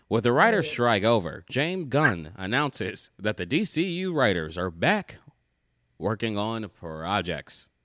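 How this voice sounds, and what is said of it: Old-fashioned radio newscaster voice. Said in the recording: “my newscaster voice ... radio broadcaster from the 1950s”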